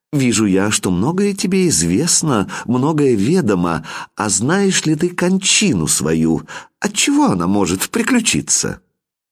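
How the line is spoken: Gentle, casual question. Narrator (Russian): стала она ласково с ним разговаривать и как бы невзначай спросила

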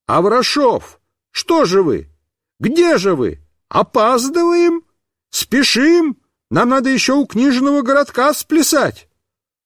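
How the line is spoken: Shouted. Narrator (Russian): какой-то клоун и, увидев нас с медведем, закричал

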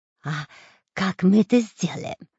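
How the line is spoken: Whispered question. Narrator (Russian): спросил шепотом Дырка

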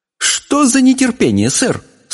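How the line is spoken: Stern fairy reprimand. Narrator (Russian): строго выговорила королю великая фея Синемора

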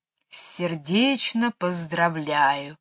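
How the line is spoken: Soft tender hiss. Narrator (Russian): нежно прошипела она

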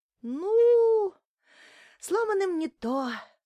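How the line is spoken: Regretful sigh. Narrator (Russian): Вздохнула Римка, будто очень жалела, что дед лишен удовольствия вытянуть ее целым удилищем длиной в 3 метра

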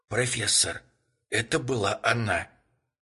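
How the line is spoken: Whisper. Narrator (Russian): прошептал он

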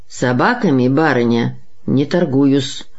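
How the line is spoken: Cold, dignified. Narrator (Russian): сказал он холодно и с достоинством

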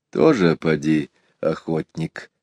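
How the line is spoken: Quiet reply. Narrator (Russian): так же тихо ответил Иван Захарыч

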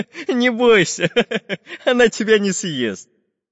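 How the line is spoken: Laughing. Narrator (Russian): Засмеялся Карандаш

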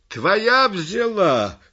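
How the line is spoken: Shout. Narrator (Russian): крикнул дятел

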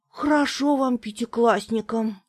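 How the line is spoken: Sigh. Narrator (Russian): вздохнул Тоник

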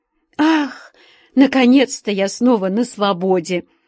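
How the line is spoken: Relieved, joyful. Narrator (Russian): Облегченно вздохнув, обрадовалась Алича

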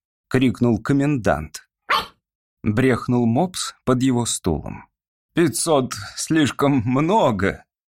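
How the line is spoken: Soft objection. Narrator (Russian): мягко возразил оратор

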